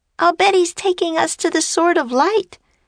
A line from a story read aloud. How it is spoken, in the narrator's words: cried Annie